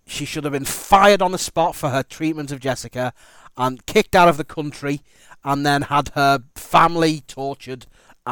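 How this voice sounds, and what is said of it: Angry tone of voice. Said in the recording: “That anger is still there... You can probably tell in my voice.”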